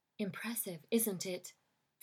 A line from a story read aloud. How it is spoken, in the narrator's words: Victoria whispered so close her breath warmed his cheek